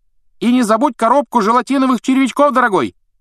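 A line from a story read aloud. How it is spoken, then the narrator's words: Woman calling after someone. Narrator (Russian): крикнул кому-то вдогонку женский голос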